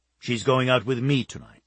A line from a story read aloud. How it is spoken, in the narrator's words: he stated firmly